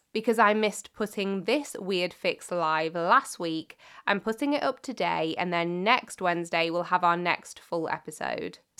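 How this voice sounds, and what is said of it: Weakened, slightly hoarse voice. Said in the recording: “you can tell from my voice, I've been somewhat under the weather. I actually lost my voice completely at one point, but thankfully it's mostly back. It's still not great”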